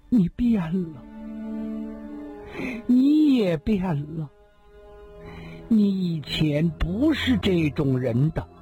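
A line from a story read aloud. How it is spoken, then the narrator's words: Slow. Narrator (Chinese): 缓缓地说道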